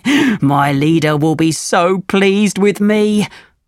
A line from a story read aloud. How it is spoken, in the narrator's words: laughed